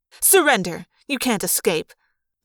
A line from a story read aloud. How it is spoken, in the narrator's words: the woman snapped